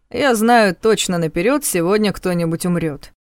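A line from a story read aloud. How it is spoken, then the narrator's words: Anxious snort. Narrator (Russian): фыркнул Ваня, но это выдало его тревогу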